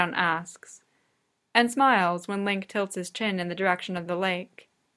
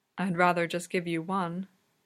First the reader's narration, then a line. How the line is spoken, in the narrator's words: Sidon murmurs